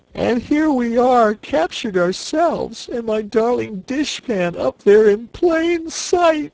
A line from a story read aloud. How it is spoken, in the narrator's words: wailed the Cookie Cook, wiping her eyes